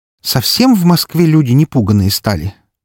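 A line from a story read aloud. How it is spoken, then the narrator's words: Exaggerated ironic loud sigh. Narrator (Russian): преувеличенно громко вздохнула Вика, иронично улыбнувшись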